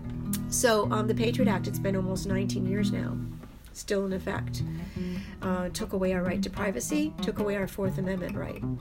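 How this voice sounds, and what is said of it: Hoarse, strained, fading voice. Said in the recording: “I'm losing my voice.”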